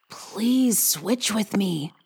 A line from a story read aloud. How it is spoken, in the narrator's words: Henry whispered across to Lisa